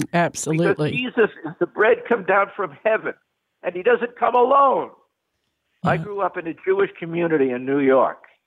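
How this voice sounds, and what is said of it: New York accent. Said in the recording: “Could you tell I'm a New Yorker from my accent? ... a little bit.”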